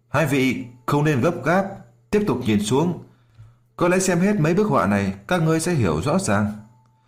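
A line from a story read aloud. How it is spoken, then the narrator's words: Smiling. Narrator (Vietnamese): Chu Thủy Văn mỉm cười nói ra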